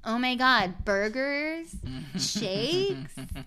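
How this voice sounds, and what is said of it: Exaggerated American accent. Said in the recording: “what do you think of my American accent? ... I would make it like”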